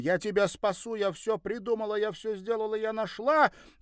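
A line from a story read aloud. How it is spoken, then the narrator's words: Shouted. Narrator (Russian): Крикнула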